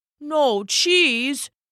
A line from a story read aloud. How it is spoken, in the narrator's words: Klaus sputtered